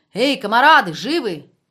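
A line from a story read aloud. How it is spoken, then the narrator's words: Shouted. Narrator (Russian): Звонов крикнул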